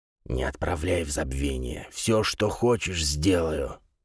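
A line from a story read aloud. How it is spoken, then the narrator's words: Telepathic whisper. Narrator (Russian): прошептал он с помощью мысли речи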